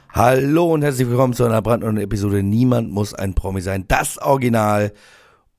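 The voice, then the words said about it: Hoarse voice. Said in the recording (German): “Was ist denn mit meiner Stimme los? ... der Heisere”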